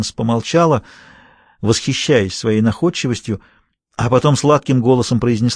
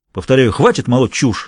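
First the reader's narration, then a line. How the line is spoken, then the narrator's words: Angry. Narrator (Russian): сердито сказал Виттингтон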